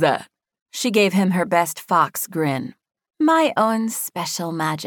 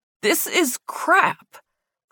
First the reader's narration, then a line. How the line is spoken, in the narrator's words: Clayton sputtered